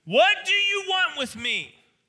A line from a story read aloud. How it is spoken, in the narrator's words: he cried out and he shouted at the top of his voice